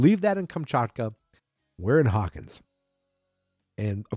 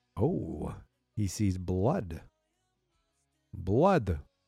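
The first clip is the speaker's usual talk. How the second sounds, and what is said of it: Bad vampire-like Eastern European accent. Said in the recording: “I say blood like that, like I'm a vampire. Or maybe some sort of Eastern European person... Bad at accents... That's Kamchatka accent.”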